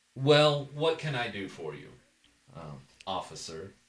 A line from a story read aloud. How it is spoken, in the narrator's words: chuckles, because you've encountered this exact kind of attitude before